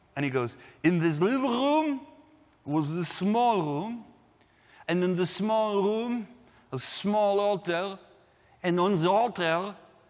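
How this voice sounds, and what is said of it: Thick Hebrew German accent. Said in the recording (Dutch): “he has this thick, like, Hebrew German accent”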